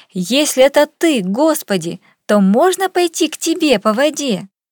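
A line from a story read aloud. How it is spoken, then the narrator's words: Impulsive shout. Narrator (Russian): порывистый Петр крикнул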